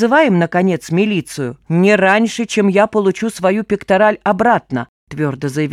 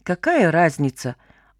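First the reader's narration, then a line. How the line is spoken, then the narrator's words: Relieved mutter. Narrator (Russian): облегченно пробормотал Сева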